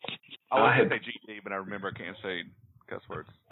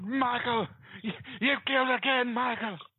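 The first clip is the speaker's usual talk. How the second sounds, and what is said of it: Dramatic horror-movie character impression. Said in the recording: “best Dr. Loomis impersonation”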